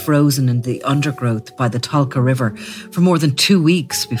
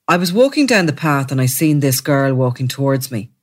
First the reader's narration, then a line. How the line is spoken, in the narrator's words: he said, speaking in a flat tone